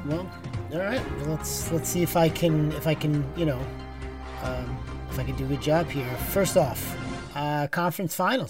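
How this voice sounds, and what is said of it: Weird put-on accent. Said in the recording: “What is this weird accent? ... What is this weird accent you're doing?”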